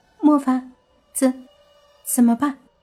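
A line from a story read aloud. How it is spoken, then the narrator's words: Forced cheer, trembling voice. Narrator (Chinese): 伊美强颜欢笑的说道，洛言也声音颤抖的说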